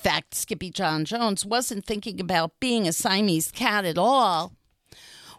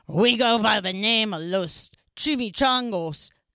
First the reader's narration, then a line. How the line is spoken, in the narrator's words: growled Don Diego, the biggest of the small ones